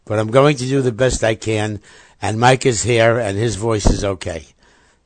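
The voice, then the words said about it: Slightly raspy, hoarse voice. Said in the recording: “my voice sounds a little raspy today, it's because I have this mysterious case of laryngitis”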